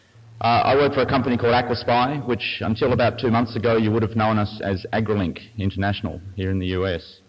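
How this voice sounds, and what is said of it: Australian accent. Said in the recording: “if you couldn't pick by the accent, I'm from Australia”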